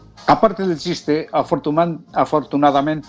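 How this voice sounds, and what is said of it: Usual voice. Nothing is said of it.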